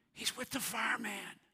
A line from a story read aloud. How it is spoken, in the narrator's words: The boy whispered